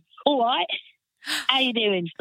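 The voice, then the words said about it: Put-on Cockney English accent. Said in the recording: “I'd love to see you do comedy with a proper Cockney accent. ... that's my dad. My daddy's English. ... That's a Southern man.”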